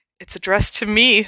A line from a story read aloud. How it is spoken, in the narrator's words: said Aunt Petunia in a shaking voice